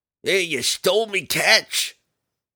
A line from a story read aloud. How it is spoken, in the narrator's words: the captain of the second ship roared